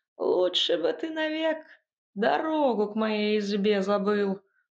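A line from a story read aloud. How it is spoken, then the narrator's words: Old witch grumbling. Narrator (Russian): проворчала яга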